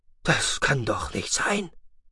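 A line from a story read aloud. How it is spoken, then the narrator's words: Whispered. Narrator (German): flüsterte Brallkont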